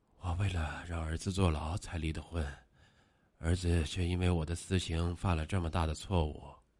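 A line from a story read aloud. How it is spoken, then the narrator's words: Constant mumbling to himself. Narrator (Chinese): 听说他一直喃喃自语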